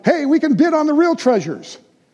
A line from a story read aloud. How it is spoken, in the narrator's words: cheers filled the room, and someone shouted